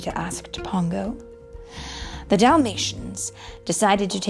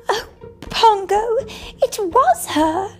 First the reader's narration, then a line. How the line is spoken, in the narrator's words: cried Perdita